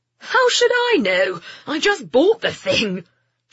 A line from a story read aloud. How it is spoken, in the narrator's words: Jeremy said, laughing